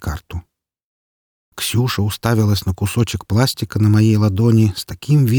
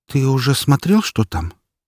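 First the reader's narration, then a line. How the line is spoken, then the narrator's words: Uncertain question. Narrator (Russian): как-то неуверенно спросила она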